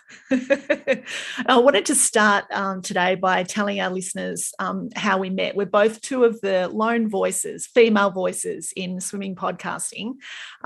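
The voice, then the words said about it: English accent. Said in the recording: “you have the beautiful accent ... It's very English.”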